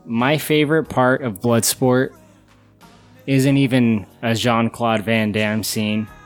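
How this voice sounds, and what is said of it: Usual voice. Nothing is said of it.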